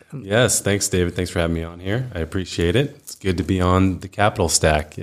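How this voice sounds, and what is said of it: Smooth podcast-style voice. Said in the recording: “You've got a great podcast voice, by the way. ... It's smooth.”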